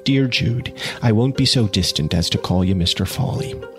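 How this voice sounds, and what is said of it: Reader doing a female character's voice. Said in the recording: “I'll do her voice a little bit”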